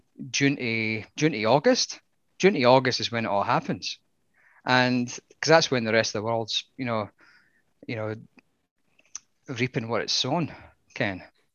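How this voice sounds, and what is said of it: Strong local Dunhamer accent. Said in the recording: “That was a 100% Dunhamer accent”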